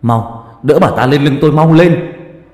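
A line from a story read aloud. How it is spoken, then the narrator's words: Loud urgent shout. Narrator (Vietnamese): Ông Ninh hét lớn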